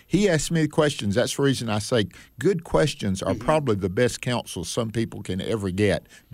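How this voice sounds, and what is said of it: Speaks with a noticeable regional accent. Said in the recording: “this accent that I have was amplified even more then... who would want to hear a voice like this?”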